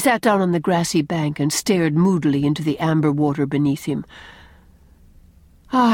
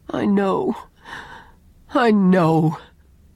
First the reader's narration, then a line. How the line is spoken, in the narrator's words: groaned Owen